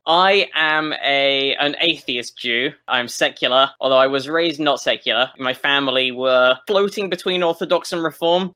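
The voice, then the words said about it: English accent. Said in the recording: “having this accent and living in America ... I am the English person”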